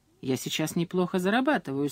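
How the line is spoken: Calm reply. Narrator (Russian): спокойно ответил Берни

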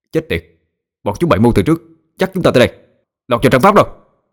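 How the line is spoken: Yelling. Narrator (Vietnamese): Đông gào lên

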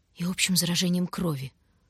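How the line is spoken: Unhappy voice. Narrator (Russian): Луша несчастным голосом добавила

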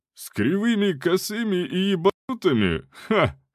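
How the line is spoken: Short laugh. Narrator (Russian): хохотнул Буревой

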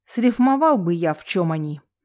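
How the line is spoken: Through gritted teeth. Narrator (Russian): сквозь зубы произнес

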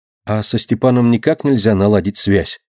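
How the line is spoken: Plain. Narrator (Russian): спросила Катя

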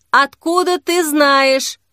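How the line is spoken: Shouted reply. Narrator (Russian): крикнул в ответ тот

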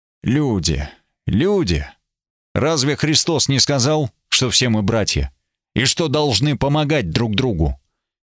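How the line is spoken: Weary, reproachful. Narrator (Russian): Я устало перевел дыхание, сказал укоряюще

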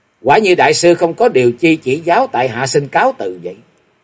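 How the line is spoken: Cold, laughing. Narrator (Vietnamese): Ngọc Long lạnh lùng cười nói

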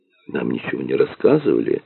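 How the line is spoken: Very quiet, unpleasant man. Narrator (Russian): очень тихо произнес неприятный тип

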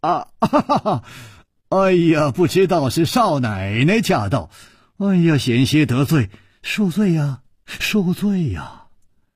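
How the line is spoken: Smiling. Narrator (Chinese): 楚留香微笑着说

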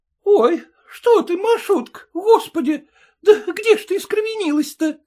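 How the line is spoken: Alarmed mother's cry. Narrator (Russian): вскрикнула мать

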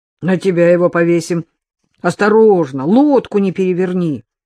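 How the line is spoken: Sharp shout. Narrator (Russian): прикрикнул он на Полушина

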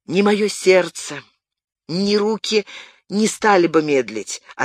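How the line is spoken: Plain. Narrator (Russian): ответил Пьер Пикуа

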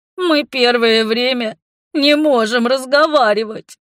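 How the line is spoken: Sobbing. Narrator (Russian): всхлипнув, сообщил

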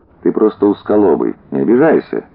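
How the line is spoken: Sad. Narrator (Russian): грустно сказал Воронцов

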